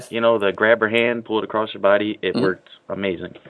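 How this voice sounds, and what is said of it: Chicago accent. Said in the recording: “Hearing your accent and going, ah, oh, I'm so homesick... the Chicago accent with the accented... A”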